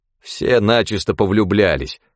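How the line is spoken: Grumbling. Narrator (Russian): проворчал Пашка

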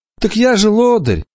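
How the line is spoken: Sad. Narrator (Russian): печально произнес Петро

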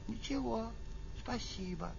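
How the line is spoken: Quiet. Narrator (Russian): она бы сказала тоже тихонько

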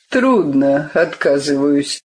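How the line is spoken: Gloomy. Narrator (Russian): мрачно сказал автор

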